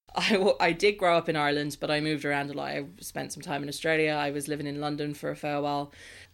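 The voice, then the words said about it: Mixed Irish-leaning accent. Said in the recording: “I just have a bit of a mess of an accent”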